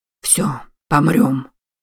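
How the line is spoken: Quick mutter. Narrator (Russian): тут же пробормотал матрос

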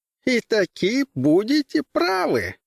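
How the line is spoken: Giggling. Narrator (Russian): хихикнул Левин

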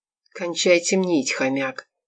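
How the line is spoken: Quiet. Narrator (Russian): тихо сказал Константин

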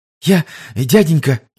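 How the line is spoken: Frightened child's drawl. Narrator (Russian): испуганно затянул мальчик

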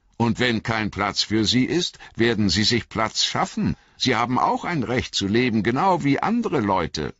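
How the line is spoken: Said loudly. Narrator (German): sagte er laut

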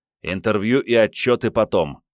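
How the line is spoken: Growled. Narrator (Russian): рыкнул Андрей

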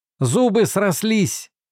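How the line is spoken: Breathless shout. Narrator (Russian): крикнул Уортон, тяжело дыша

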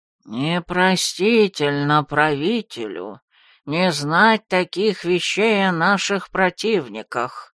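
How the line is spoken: Nasal elder's comment. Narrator (Russian): гнусаво прокомментировал один из старейшин

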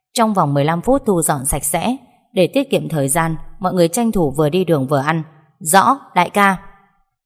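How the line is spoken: Stern command. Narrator (Vietnamese): anh nghiêm giọng hạ lệnh

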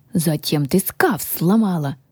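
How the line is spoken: Indignant snorting keeper. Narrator (Russian): возмущенно засопел хранитель

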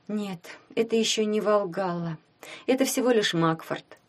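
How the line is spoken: Sad. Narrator (Russian): грустно сказала Таня

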